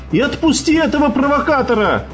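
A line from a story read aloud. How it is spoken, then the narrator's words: Hypnotized, repeated shout. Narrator (Russian): Будто под гипнозом, повторяя чужой приказ, выкрикнул тот под конец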